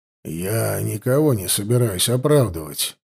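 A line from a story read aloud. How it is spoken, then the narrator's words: Soft, gentle. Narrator (Russian): мягко сказал детектив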